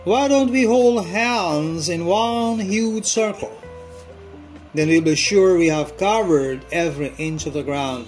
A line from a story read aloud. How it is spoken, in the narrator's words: Suddenly, one old lady called out